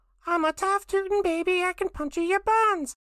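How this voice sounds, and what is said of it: Cartoon baby character voice. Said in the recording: “will you do your impression? ... Baby Finn”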